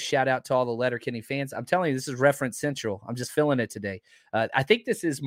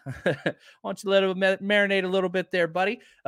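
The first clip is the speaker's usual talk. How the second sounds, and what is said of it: Put-on Canadian accent. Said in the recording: “that's as good Canadian accent as I could do”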